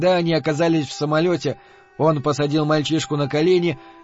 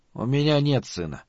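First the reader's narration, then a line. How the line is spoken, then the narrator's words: Very quiet. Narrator (Russian): сказал Малиберт, но очень тихо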